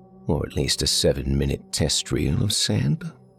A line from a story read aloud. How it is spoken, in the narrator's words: added, in a more reasonable tone